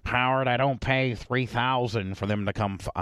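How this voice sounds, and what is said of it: Imitates another person's voice. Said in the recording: “I'm probably not a good impersonator.”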